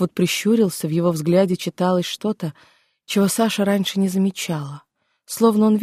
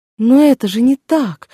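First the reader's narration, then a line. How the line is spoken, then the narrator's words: Exclamation. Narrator (Russian): воскликнула Саша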